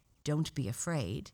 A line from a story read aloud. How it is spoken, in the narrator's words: said the stranger